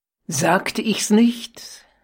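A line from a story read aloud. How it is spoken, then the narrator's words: Exclaiming. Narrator (German): rief sie aus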